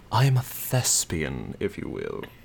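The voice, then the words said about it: Dramatic, pompous theatrical accent. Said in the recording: “say it dramatically ... isn't pompous enough. It must be done with an accent.”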